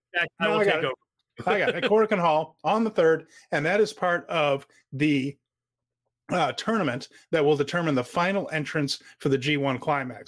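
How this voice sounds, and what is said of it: Hoarse, strained voice. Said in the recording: “I'm losing my voice a little.”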